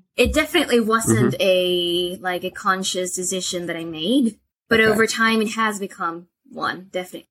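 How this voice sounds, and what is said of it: Soft neutral American accent. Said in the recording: “you've very much got more of an American accent. It's a fairly neutral one. It's not like a really strong one... a couple of times I've heard a few syllables that sound a little bit British when you're in your American accent, but the majority of it is all American, but very soft American”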